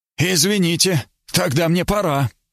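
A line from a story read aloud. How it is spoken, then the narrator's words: Shouted, interrupting. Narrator (Russian): крикнул он, недослушав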